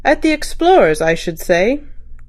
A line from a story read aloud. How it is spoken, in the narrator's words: dropped the assistant commissioner calmly